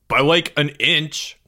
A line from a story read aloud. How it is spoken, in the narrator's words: Greg snapped